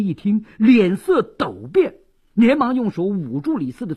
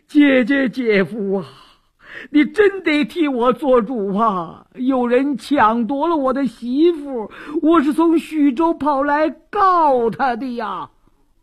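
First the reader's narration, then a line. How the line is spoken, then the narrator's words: Loud bawling. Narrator (Chinese): 李四禁不住哇哇大哭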